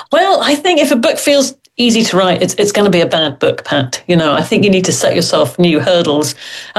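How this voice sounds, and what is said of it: British accent. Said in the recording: “my very British accent”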